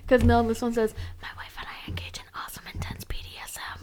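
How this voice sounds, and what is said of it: Quiet whispered reading. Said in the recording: “whisper emoji ... Why are you so quiet? ... Why do we need to whisper”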